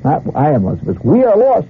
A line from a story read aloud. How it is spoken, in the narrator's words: the captain shouted